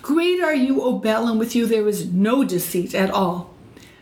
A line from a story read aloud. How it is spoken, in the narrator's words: he cries out